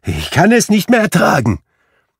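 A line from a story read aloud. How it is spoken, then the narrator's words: Exclaiming. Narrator (German): rief Scrooge aus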